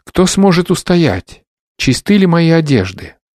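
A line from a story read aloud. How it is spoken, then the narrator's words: Exclaiming together. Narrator (Russian): мы все воскликнули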